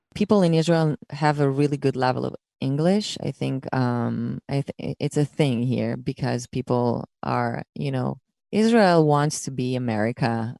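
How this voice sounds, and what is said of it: American-sounding English accent. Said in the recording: “my accent sounds American ... so heavily influenced by American television and songs”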